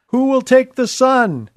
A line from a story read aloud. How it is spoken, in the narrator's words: the auctioneer cried